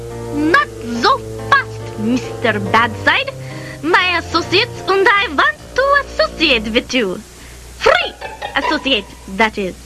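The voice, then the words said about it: Speaks with a thick accent. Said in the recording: “it's a wonder I can understand you with that accent.”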